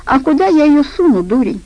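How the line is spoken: Laughing. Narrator (Russian): она засмеялась

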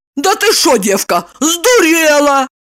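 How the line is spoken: Woman shouting. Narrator (Russian): закричала она

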